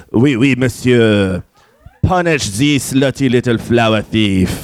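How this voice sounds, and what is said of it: Thick French accent. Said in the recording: “in a thick French accent”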